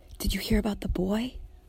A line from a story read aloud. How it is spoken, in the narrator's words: She whispers